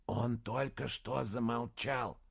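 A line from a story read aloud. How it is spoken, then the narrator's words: Young man whispering. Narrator (Russian): прошептал один из часовых, молодой парень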